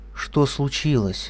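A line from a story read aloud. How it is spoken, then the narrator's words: Quiet question. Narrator (Russian): тихо спросила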